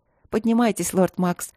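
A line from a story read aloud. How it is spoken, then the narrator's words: Brisk demand. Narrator (Russian): потребовала бодро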